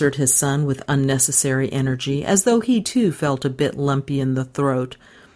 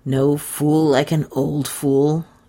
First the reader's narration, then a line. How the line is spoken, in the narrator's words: grumbled Stanton Sr